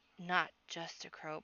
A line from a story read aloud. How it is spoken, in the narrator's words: Podkin whispered